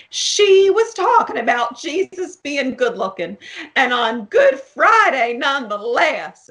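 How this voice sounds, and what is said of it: Put-on Southern accent. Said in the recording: “I'm going to do my Southern accent again, even for someone else. Southern.”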